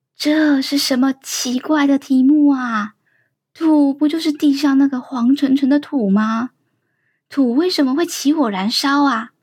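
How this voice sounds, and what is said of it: Quiet, hushed questioning voice. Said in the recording (Chinese): “丁丁小声的问东东”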